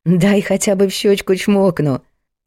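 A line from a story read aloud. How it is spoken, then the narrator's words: Laughing. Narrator (Russian): засмеялся Артур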